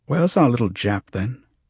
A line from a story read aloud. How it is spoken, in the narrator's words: Swain asked